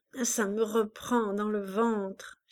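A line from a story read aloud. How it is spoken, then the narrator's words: Moaning. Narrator (French): gémit-elle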